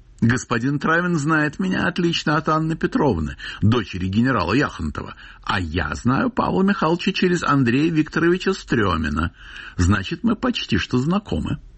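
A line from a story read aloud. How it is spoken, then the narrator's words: Brash, cheeky. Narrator (Russian): сказала развязно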